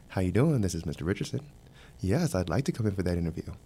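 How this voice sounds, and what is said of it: Polite, polished phone voice. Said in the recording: “you put on your best voice.”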